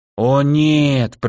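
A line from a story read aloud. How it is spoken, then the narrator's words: Drawn-out. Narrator (Russian): протянула Люцина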